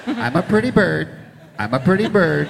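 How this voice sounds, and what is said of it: Imitates a talking bird voice. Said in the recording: “my impression ... of one of the fake birds in the movie”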